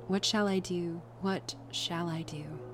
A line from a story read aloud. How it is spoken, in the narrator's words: a wretched child enough, whispering to myself over and over again